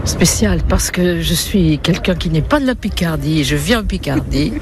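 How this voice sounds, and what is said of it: Slight southern French Toulouse accent. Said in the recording (French): “j'ai gardé un petit accent toulousain ... j'ai l'accent du Sud ... il s'est adouci. Mais il y a encore une pointe. ... Oui, on entend un petit peu.”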